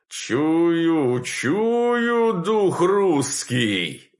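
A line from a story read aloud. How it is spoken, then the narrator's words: Loud male shout. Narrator (Russian): громко вскричал мужской голос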